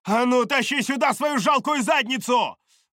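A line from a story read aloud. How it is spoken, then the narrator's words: Shout. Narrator (Russian): выкрикнула Чара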